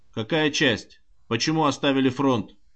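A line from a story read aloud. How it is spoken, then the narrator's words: Stern question. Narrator (Russian): строго спросил комиссар Добровольский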